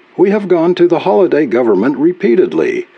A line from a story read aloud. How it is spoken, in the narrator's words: Ud Clavin pleaded